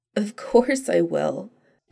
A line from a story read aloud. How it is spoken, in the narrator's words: Donna said shakily